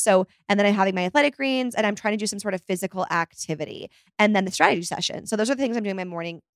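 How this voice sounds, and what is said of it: Very fast speech. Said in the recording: “I'm talking so fast. I can't even get my words out.”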